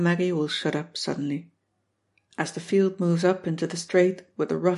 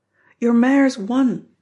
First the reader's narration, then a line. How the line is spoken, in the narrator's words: they'll shout